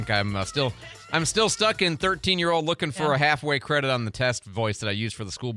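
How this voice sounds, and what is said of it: Usual voice. Nothing is said of it.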